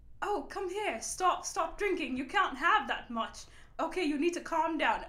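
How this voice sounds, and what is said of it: Put-on British accent, motherly scolding. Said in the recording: “I had a British accent ... This British accent would come out ... I'm sure it sounded like shit ... the mom of the group while being British”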